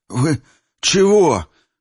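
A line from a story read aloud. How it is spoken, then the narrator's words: Breathed out. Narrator (Russian): выдохнул Петрович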